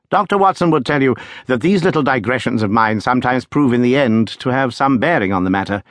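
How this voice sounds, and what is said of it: Usual voice. Nothing is said of it.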